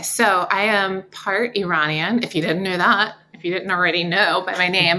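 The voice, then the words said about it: Southern American accent. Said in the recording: “a Southern accent.”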